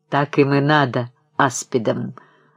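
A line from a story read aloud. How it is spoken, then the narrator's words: Spiteful. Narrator (Russian): злобно промолвила Ольга Александровна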